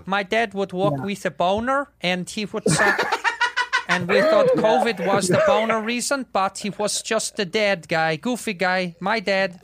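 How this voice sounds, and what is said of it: Put-on foreign accent. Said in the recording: “Is that a good accent? ... It was dead on.”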